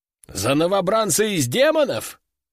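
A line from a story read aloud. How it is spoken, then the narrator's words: Officer's short laugh. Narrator (Russian): хохотнул кто-то из офицеров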